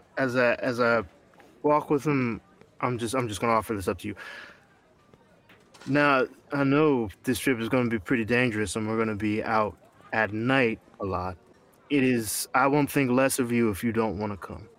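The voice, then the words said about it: Put-on character accent. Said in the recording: “I got this accent that doesn't go well.”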